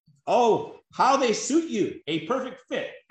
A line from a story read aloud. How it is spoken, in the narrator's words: everyone exclaimed